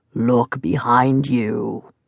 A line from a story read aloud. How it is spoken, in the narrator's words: croaked the voice